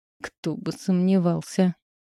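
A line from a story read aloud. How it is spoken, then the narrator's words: Angry, through teeth. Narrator (Russian): процедила я сердито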